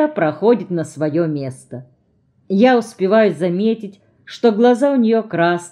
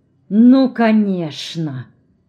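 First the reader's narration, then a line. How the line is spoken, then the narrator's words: Venomous, through teeth. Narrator (Russian): ядовито цедит сквозь зубы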